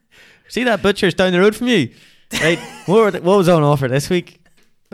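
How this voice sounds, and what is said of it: Failed, too-fast Ballymena accent attempt. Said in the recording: “That wasn't a Ballymena accent, by the way. ... That was far too fast. You have to get on to 0.5.”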